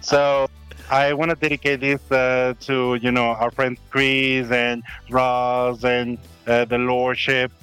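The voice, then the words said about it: Non-British accented English. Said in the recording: “speaking with a non-British accent”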